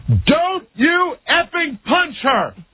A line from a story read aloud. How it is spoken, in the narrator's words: screaming, this woman at the top of her lungs says